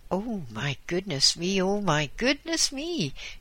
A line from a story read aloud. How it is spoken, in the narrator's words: she exclaimed